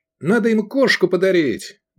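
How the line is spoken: Exclaiming. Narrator (Russian): воскликнул Эдик

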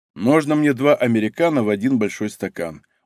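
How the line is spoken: Tired request. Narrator (Russian): устало попросил мужчина

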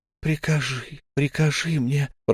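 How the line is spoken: Whisper. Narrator (Russian): прошептала она

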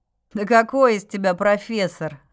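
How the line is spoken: Laughing. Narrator (Russian): рассмеялся блондин

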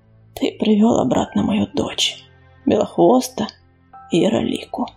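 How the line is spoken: Muffled, hollow. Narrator (Russian): глухо проговорил Огнезвезд

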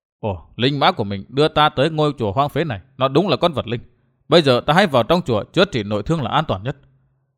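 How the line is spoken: Muttering. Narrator (Vietnamese): Thạch Kiếm Cửu lẩm bẩm

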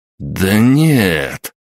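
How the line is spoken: Exclaimed. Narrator (Russian): воскликнул Николай

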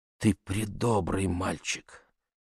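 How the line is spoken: Whisper. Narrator (Russian): прошептала

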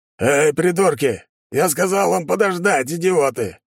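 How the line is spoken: Roaring. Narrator (Russian): взревел он

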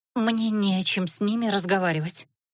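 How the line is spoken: Forced out with effort. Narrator (Russian): набравшись смелости, выдавила Наташа

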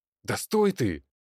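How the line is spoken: Agitated, worried shout. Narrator (Russian): взволнованно кричал Андрей, предчувствуя неладное

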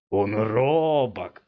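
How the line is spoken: Hoarse giggle turning to growl. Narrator (Russian): хриплое хихиканье здоровяка вдруг перешло в рычание

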